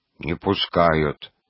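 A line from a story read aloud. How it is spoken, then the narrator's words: Deep bass repetition. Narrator (Russian): басом повторил младший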